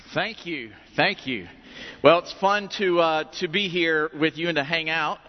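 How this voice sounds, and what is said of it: Southern US accent. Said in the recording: “I love his accent. If I didn't tell you he's from Georgia, you would think he was from Kentucky.”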